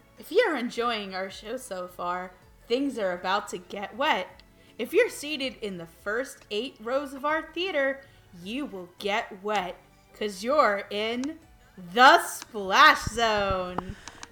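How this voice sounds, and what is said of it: SeaWorld show announcer voice. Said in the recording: “put on my best SeaWorld voice”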